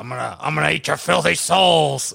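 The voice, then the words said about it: Menacing possessed demonic voice. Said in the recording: “do a good possessed voice? ... Do my possessed voice?”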